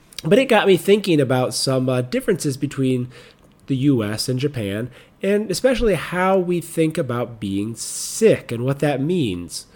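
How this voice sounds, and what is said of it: Slightly funny, cold-affected voice. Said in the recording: “I had come down with a cold, and I'm still getting over it, which is why my voice sounds a little funny today”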